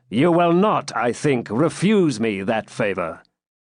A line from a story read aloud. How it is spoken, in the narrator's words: said the pilgrim in a commanding tone